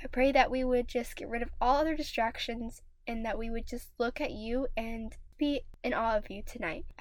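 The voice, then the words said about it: Raspy, hoarse voice. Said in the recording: “my voice may sound a little weird. It may sound a little like almost ... raspy ... I am still getting over a cold”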